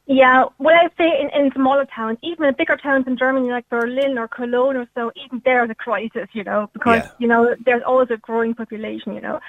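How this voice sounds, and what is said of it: German-Cork crossbreed accent. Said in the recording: “You've got a wonderful Cork accent already ... You've got a lovely Cork accent. It's a kind of crossbreed accent between Germany and Cork.”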